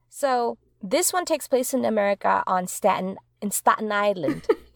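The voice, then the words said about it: Attempted accented character impression. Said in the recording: “I tried to do a Nausea impression there ... I can't do accents either, but I tried”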